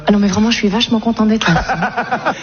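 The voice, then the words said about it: Put-on Parisian French accent. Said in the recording (French): “je parle un peu à la parisienne comme ça ... Pas mal, tu le fais bien”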